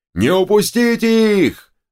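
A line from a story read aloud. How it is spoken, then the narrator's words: Yell. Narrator (Russian): заорал турок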